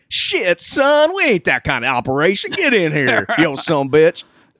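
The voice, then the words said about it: Imitates another person's voice. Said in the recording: “I'm gonna do my Michael Caine impersonation ... Perfect ... nailed, nailed it”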